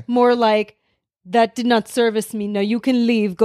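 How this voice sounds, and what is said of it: Vague Eastern European accent. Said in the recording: “The accent. ... Eastern European, vaguely.”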